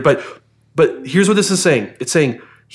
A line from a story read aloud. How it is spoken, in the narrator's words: He cried out and said, God, this is so hard